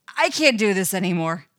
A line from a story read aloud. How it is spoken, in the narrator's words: he blurts out